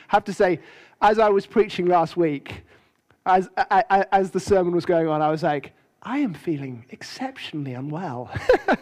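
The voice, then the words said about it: Croaky, hoarse voice. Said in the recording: “my voice is a little croaky ... I am talking like this”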